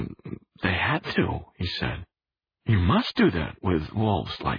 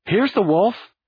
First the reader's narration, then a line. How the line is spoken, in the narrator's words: Thelma exclaimed